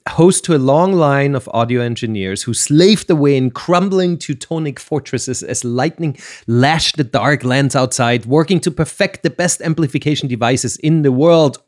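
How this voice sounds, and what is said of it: Attempted German accent. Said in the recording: “I'm trying to do this in a German accent. It's hard for me.”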